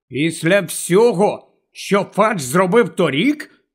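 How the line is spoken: Angry question. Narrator (Ukrainian): сердито перепитав Гаррі

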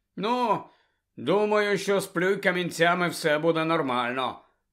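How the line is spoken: Gloomy grumble. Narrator (Ukrainian): похмуро буркнув Рон

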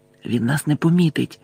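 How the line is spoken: Whispered. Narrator (Ukrainian): прошепотів Гаррі

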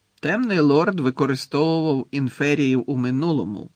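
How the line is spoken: Plain. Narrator (Ukrainian): відповів Снейп

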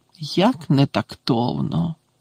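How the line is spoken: Mutter. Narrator (Ukrainian): пробурмотіла

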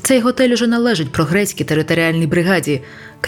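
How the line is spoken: Shout. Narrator (Ukrainian): крикнув він

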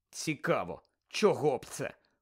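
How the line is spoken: Sullen grumble. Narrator (Ukrainian): похмуро буркнув Гаррі

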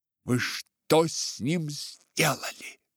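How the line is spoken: Fierce growl. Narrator (Russian): прорычала так свирепо

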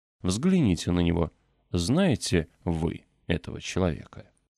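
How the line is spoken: Solemn. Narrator (Russian): Гук торжественно произнес

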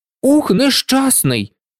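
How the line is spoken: Angry exclamation. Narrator (Ukrainian): вигукнув розлючений дятел

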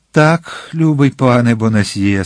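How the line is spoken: Laughing young man. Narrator (Ukrainian): сказав юнак, засміявшись

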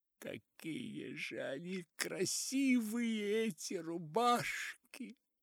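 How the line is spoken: Muffled sobbing lament. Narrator (Russian): Сквозь рыдания причитала приглушенным толстыми рубашками голосом

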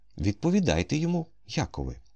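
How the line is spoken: Calm request. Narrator (Ukrainian): спокійно попросив Кому

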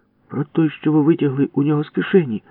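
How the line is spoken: Exclaimed. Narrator (Ukrainian): вигукнула Валька

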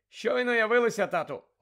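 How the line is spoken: Loud. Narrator (Ukrainian): голосно мовив Персі

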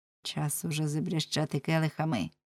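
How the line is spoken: Whispered. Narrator (Ukrainian): Він нахилився Оленшпігелеві до вуха і шепнув до нього

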